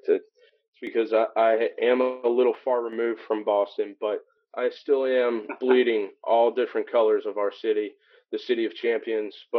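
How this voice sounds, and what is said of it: Slight twang in accent. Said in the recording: “I do a little twang in my dialect.”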